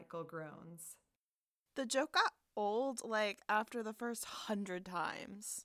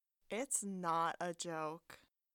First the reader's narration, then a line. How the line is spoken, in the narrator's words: Jake says very, very solemnly